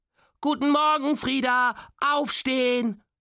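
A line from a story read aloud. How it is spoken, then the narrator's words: Extra loud call. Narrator (German): ruft extra laut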